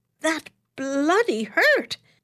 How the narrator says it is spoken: he exclaimed indignantly

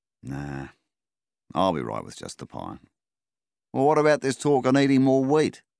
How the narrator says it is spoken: Melvin sighed

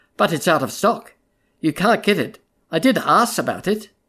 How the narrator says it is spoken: she said gravely

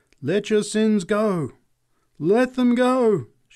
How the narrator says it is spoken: cried

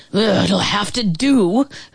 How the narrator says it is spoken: Velma snarled

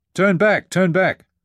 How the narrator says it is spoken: hollered Dana

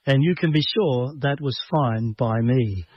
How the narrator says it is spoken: he says

